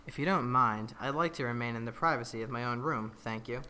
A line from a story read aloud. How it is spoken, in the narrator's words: spoke in a much more sedated tone and said